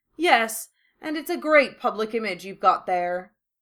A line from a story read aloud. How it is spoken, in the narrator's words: Draco drawled mockingly